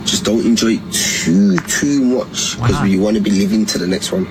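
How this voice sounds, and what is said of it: British accent, possibly Scottish or Liverpool. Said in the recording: “I like that accent... Is he Scottish?... It sounds like British... Liverpool, maybe?”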